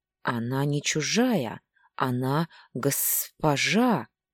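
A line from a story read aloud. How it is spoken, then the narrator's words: Louder hiss. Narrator (Russian): На этот раз Тагейра шипел громче обычного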